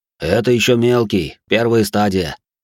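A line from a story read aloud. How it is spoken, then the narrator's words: Smirking grunt. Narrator (Russian): хмыкнул динамит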